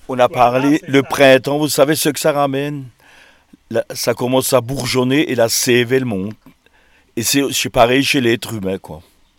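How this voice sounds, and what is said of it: Alsatian French accent. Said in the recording (French): “on a l'accent alsacien”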